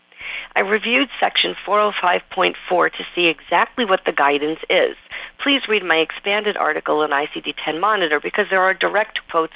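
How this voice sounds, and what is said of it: New York accent. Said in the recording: “if you can't tell from my accent, New York”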